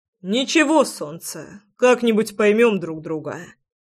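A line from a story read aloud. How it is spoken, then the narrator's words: Amused snort. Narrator (Russian): хмыкнул Саша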